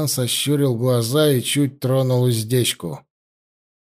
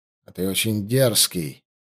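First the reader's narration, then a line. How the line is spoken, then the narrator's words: Quiet. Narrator (Russian): негромко сказал вельможа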